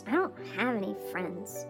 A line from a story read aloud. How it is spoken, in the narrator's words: mumbled Jordan